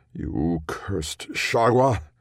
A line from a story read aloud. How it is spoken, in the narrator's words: snarled